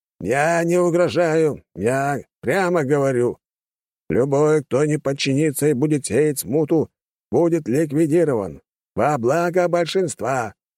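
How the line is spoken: Fairly loud. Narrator (Russian): достаточно громко произнес капитан судна

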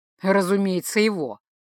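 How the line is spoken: Wry snort. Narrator (Russian): хмыкнул Риол

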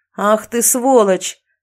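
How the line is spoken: Yelling. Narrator (Russian): завопил один из группы

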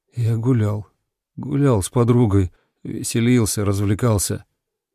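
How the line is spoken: Muttered. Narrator (Russian): Я пробормотал

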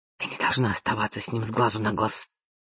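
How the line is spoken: Sister hissing. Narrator (Russian): прошипела сестра

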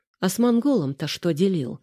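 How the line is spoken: Abrupt change of subject. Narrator (Russian): резко сменила тему Женя

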